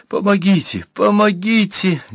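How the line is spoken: Girl choking on sobs. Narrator (Russian): Девушка, захлебываясь в рыданиях

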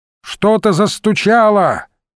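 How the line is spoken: Shout. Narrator (Russian): крикнул Иван Сергеевич

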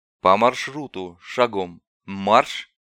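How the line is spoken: Calm command. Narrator (Russian): Спокойно приказал Дорогин

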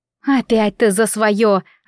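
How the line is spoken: Groaning. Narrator (Russian): застонала Грех

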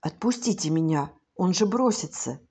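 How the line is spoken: Boy's hurried whisper. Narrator (Russian): Мальчик опомнился первым и торопливым шепотом сказал

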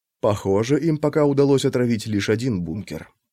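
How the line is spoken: Whispered. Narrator (Russian): прошептал Макс

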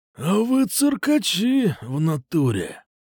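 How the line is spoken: Through gritted teeth. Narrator (Russian): Процедил Кукуша

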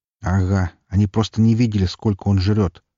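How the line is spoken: Glum reply. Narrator (Russian): уныло отозвался я

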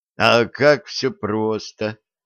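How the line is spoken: Slightly disappointed drawl. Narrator (Russian): Немного разочарованно протянул Борис Федорович

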